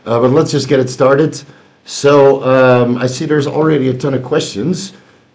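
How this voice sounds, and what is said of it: Slightly raspy, sick-sounding voice. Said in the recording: “I'm still a little bit sick. My voice is still a little bit raspy”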